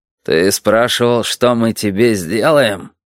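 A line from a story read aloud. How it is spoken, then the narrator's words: Muffled rumble. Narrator (Russian): глухо пророкотал Толик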